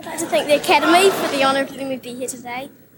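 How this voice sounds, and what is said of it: Broad New Zealand accent, rising intonation. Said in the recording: “her broad Kiwi accent ... that little Kiwi rising register”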